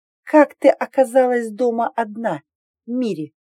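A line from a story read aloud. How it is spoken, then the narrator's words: Forced friendliness, through teeth. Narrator (Russian): спросила я сквозь зубы, все еще пытаясь изобразить доброе выражение лица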